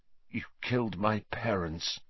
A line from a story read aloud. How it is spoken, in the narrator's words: said Harry, his voice shaking slightly